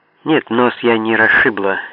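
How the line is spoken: Angry mutter. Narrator (Russian): сердито пробормотала она

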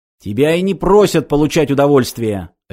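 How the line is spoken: Barked. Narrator (Russian): рявкнул он

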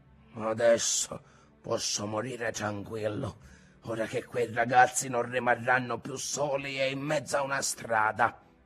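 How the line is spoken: Teary old man grumbling. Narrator (Italian): Il nonno si soffiava il naso anche lui e brontolava

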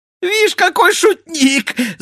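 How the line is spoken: Laughing shout. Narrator (Russian): закричал, смеясь, черт

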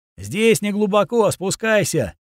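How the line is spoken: Shouting down. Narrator (Russian): крикнул я в щель сверху

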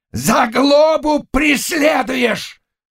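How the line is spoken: Loud barking shout, attacking. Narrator (Russian): гаркнул он, нападая на противника

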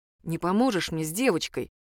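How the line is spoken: Plain, priest. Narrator (Russian): спросил батюшка

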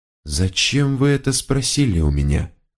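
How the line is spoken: Male whisper. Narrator (Russian): проговорил он шепотом

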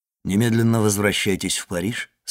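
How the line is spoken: Plain. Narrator (Russian): сказал он

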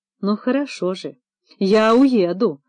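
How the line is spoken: Tearful, threatening voice. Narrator (Russian): плачущим голосом с угрозой произнес Левицкий

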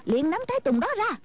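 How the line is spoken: Girl shouting. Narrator (Vietnamese): Cô bé quát lên

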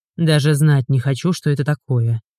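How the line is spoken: Grumbled. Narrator (Russian): проворчал Игорь

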